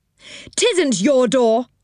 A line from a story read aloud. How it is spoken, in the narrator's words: shouted Moonface